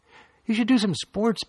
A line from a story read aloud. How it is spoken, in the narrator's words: Billy's sister piped up from her seat across from Billy